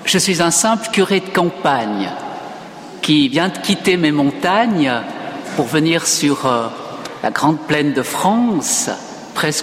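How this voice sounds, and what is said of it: Slight regional French accent. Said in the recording (French): “il y aura un petit accent, mais bon, je ne peux pas renier mes origines”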